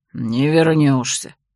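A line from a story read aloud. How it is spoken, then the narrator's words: Bear's growl. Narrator (Russian): рыкнул медведь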